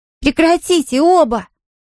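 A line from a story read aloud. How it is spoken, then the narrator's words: Shouting. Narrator (Russian): закричала Амелия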